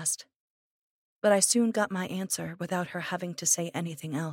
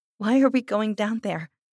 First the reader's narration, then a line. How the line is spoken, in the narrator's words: I asked, and I couldn't control my voice from shaking a little